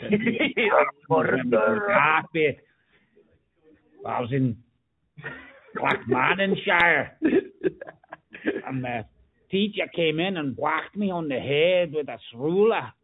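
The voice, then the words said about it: Put-on Scottish accent. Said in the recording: “I'm even talking a Scottish accent.”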